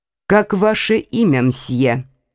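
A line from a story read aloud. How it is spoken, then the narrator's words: Plain question. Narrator (Russian): спросил председатель суда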